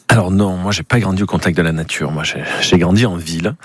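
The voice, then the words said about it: Slight southern French accent. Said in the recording (French): “je viens du sud, ça s'entend peut-être dans un petit accent.”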